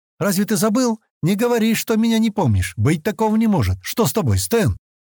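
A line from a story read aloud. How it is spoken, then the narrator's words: Frightened exclamation. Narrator (Russian): Испуганно воскликнула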